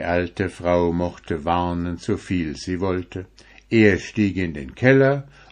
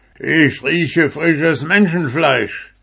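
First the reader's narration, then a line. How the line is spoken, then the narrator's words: Giant roaring. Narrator (German): brüllte der Riese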